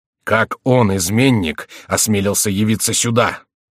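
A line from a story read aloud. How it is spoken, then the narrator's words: Agitated. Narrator (Russian): спросил Генрих взволнованным голосом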